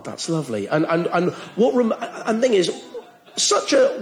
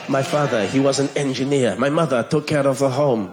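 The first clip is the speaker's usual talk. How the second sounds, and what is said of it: Romantic-sounding put-on Spanish accent. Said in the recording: “in a Spanish accent, it sounds so romantic”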